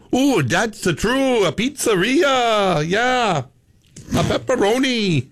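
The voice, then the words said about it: Put-on Italian accent. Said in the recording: “give an Italian accent ... like my Italian”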